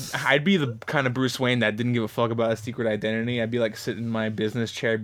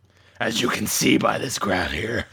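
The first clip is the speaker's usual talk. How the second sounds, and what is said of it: Gravelly Batman character voice. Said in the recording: “in my Batman voice”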